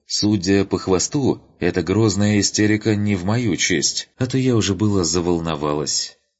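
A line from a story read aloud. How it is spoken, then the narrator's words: Calm summing up. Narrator (Russian): она спокойно резюмировала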